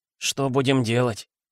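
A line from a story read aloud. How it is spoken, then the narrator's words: Quiet question. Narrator (Russian): тихо спросил Рон у Гарри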